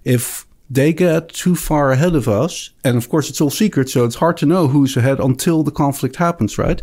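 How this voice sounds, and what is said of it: Slight Dutch accent. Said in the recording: “This accent ... Just a little Dutch accent.”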